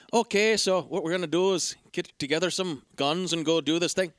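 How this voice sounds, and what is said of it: Bad, lazy fake Irish accent. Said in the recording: “I'm going to do an Irish accent right now ... Irish accent is not very good ... it's so lazy ... He sounds like the leprechaun ... like Americans' casual comedic impression of Irish people”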